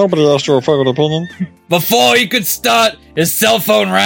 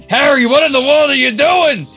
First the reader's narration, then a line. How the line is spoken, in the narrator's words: Hermione yelled at the phone